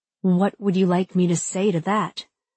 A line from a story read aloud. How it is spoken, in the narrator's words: I ask, my voice barely controlled